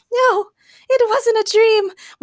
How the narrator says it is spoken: Morgana yelped as she fainted again

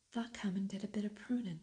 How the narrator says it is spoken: cried Dickon

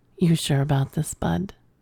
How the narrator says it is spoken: whispered in my ear

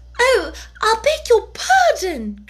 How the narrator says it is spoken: cried Alice hastily, afraid that she had hurt the poor animal's feelings

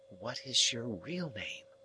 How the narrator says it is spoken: asked in a whisper

